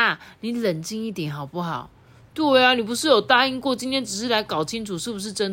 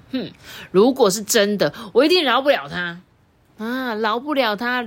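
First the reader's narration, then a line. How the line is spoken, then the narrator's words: Through gritted teeth. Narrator (Chinese): 李莎呢，咬牙切齿的说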